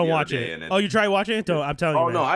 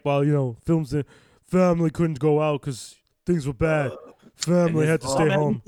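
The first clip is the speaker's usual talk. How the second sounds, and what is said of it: Imitates another person's voice. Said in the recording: “That's the best Vin Diesel accent I've ever heard in my life.”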